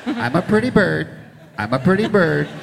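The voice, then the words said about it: Imitates a bird's voice. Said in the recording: “my impression coming out here of one of the fake birds in the movie.”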